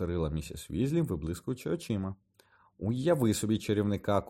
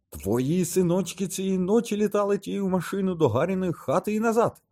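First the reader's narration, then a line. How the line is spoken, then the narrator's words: Shout. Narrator (Ukrainian): крикнула місіс Візлі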